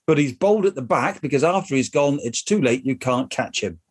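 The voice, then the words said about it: Slight West Country accent. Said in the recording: “Your West Country accent, which isn't normally very prevalent, actually, just sneaked in there with the way in which you pronounce the word bald ... Bold.”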